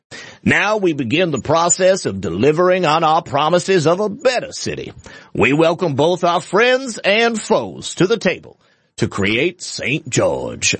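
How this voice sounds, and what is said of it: General Southern American accent. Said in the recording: “it wasn't quite my Mark Twain voice. It wasn't quite my Foghorn Leghorn. I was just, you know, trying to do a general Southern accent.”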